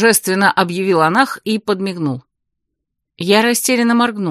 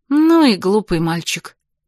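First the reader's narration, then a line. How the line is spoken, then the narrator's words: Snort. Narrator (Russian): фыркнула я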